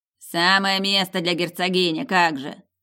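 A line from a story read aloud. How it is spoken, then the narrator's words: Ghostly snort. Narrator (Russian): фыркнул призрак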